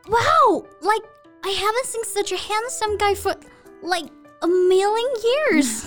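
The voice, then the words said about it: Overacted Valley Girl accent. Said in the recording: “Valley Girl accent. Well, why don't you mimic this accent ... I think you're a little bit overacted on this one.”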